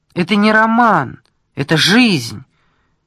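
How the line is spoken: Nearly shouting. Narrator (Russian): почти крикнул поручик

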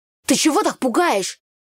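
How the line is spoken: Loud grumbling. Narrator (Russian): Громко проворчал Митька

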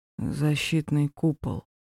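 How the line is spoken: Drowsy mumble. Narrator (Russian): пробормотал, чувствуя, как его веки тяжелеют

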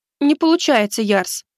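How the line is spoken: Hurt, offended. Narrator (Russian): обиженно сказала она

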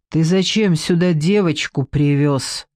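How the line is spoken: Angry growl. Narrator (Russian): зарычал он на Андрея

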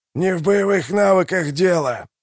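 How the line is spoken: Hoarse wheeze. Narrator (Russian): прохрипел Калор

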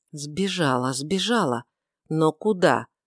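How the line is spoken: Muttering. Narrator (Russian): бормотал

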